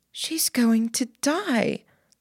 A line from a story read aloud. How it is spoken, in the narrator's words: Lainey spoke at a whisper